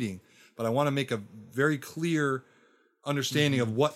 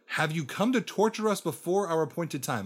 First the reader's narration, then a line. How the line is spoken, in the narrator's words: They shouted